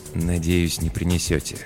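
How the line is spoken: Very quiet mumble. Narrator (Russian): пробормотал Пол так тихо, что слышал его только я

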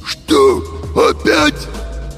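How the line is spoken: Hoarse cartoon-wolf voice. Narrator (Russian): Просипел Фима голосом мультяшного волка

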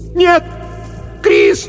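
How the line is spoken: Scream into darkness. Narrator (Russian): закричала она в темноту позади себя

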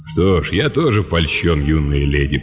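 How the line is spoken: Deep bass. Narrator (Russian): пробасил Лэб

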